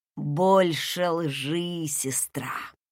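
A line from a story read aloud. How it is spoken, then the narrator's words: Menacing hissed whisper. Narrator (Russian): Прошипел опасным шепотом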